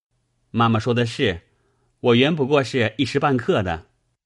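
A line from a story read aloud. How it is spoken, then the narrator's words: Laughing. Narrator (Chinese): 宝玉笑道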